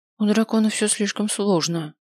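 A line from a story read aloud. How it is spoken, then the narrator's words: Sighing. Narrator (Russian): вздохнула я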